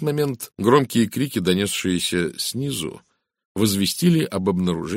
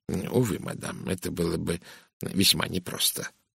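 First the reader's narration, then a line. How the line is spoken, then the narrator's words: Muttering. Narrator (Russian): пробормотал бельгиец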